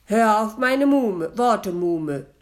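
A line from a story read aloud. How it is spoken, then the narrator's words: Stern. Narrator (German): sagte streng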